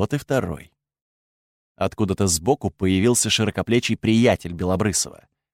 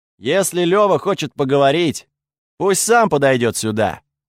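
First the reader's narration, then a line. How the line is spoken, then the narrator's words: Shout. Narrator (Russian): крикнул я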